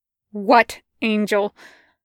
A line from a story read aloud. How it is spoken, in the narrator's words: Crowley said sharply